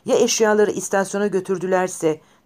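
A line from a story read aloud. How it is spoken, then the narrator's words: Desperate shouting. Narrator (Turkish): diye umutsuzlukla bağırdı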